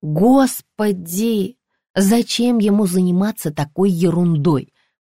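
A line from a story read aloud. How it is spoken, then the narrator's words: Moaning. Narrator (Russian): простонала я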